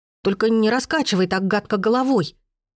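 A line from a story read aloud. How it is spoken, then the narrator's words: Frightened child exclaiming. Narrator (Russian): испуганно воскликнул малютка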